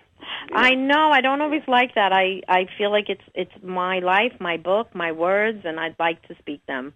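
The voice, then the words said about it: Brooklyn or New York accent. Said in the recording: “you have this charming... Brooklyn or New York accent”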